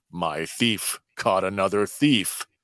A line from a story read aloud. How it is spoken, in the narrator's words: Chuckling, Mako exclaims